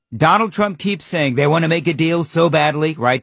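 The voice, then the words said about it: Bad imitation of another person's voice. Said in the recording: “does a bad Trump impersonation, by the way. That's mine.”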